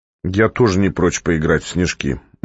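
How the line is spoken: Gloomy. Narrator (Russian): мрачно сказал Котя

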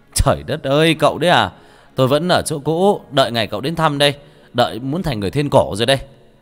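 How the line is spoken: Laughing loudly, delighted. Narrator (Vietnamese): Nhận ra người bạn cũ, người kia cười lớn

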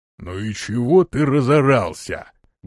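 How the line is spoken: Deep thick bass. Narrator (Russian): густым басом произнес низкий

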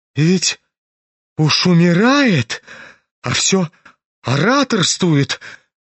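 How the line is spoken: Exclaimed. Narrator (Russian): воскликнула Лизавета Прокофьевна

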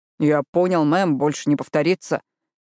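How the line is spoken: Grumbling, mock soldierly. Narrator (Russian): пробурчал Мэтт, пародируя солдафона

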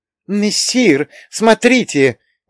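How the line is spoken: Exclaiming. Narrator (Russian): воскликнул Матроскин

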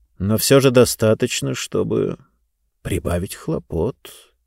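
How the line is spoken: Quiet voice. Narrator (Russian): тихим голосом сказал зонтоломайстер

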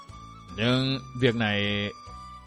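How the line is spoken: Hesitant speech. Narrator (Vietnamese): Thiên Huyền ngập ngừng nói

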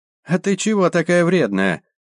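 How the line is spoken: Very high unpleasant voice. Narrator (Russian): спросил толстяк очень высоким противным голосом

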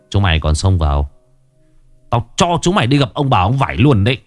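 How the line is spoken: Menacing growl. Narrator (Vietnamese): gã gằn giọng

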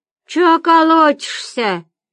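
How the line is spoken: Muffled drone from inside. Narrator (Russian): прогудела изнутри

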